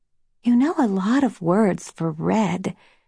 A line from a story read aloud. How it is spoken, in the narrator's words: Snow whispered